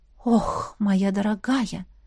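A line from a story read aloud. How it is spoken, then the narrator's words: Quiet whisper. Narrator (Russian): Графиня тихонько прошептала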